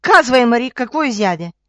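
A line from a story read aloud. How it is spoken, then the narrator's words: Stepmother shouting. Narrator (Bulgarian): мащехата и викнала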